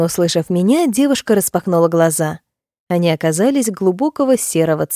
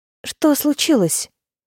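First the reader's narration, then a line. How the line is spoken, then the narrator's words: Frightened whisper. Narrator (Russian): испуганно прошептала она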